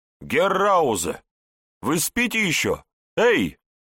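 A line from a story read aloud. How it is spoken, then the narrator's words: Shouting. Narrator (Russian): кричал, Ратман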